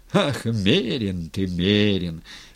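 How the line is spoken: Laughing. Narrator (Russian): Степан засмеялся

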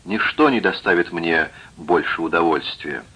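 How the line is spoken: Plain. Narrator (Russian): сказал я

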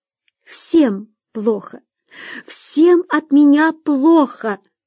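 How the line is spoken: Girl sobbing. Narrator (Russian): рыдала девушка

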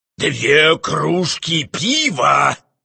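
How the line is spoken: Menacing. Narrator (Russian): грозно повторил флебусьер

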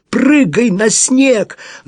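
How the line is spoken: Shouted again. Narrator (Russian): Он еще раз крикнул

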